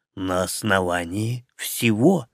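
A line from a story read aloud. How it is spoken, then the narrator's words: Calm reply. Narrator (Russian): спокойно ответил император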